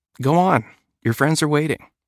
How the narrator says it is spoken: smiled warmly at him and said

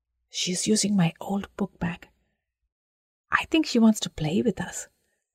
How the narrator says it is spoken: Sarayu whispered back

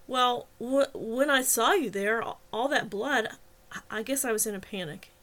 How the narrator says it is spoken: he stammered

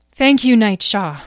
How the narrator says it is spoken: said Beatrice

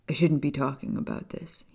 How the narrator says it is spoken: he muttered

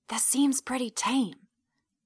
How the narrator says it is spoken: I whisper to Kane

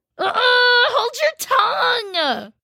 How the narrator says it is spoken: cried Joe

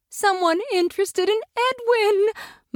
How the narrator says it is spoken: Mother said excitedly

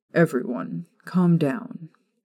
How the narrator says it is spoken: Remus ordered quietly

